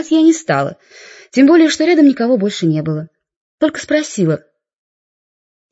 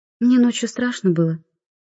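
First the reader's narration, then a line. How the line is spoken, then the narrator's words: Quiet girl. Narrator (Russian): тихо сказала девочка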